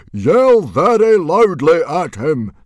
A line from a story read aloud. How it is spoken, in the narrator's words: Stoic shouted very loudly